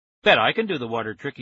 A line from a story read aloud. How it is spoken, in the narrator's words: said